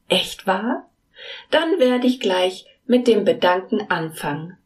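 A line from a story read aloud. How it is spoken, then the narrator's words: Calling out. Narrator (German): rief Mila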